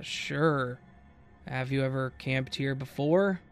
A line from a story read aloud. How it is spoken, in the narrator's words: The man on the other line paused and then somewhat hesitantly said